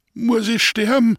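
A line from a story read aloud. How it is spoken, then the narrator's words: Whimpering, groaning wounded thief. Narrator (German): fragt wimmernd und stöhnend der angeschossene Dieb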